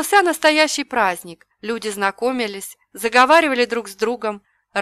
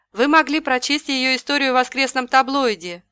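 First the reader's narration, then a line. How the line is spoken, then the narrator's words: Declaring. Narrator (Russian): заявил Стив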